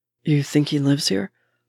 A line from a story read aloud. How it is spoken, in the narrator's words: Bucky asks in a barely audible murmur